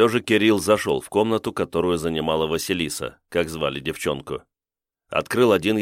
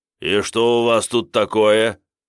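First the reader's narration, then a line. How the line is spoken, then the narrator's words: Menacing question. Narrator (Russian): грозно спросил он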